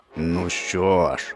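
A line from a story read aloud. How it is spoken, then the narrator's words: Lion's growl. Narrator (Ukrainian): загарчав лев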